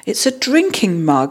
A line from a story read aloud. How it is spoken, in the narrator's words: he exclaimed, his face lighting up with pleasure